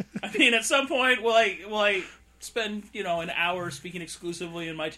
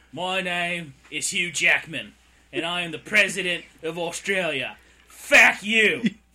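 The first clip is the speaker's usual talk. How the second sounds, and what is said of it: Terrible put-on Australian accent. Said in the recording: “my terrible Australian accent”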